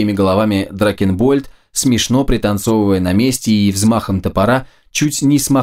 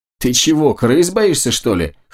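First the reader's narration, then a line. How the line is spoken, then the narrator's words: Chuckling. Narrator (Russian): хохотнул Мэверик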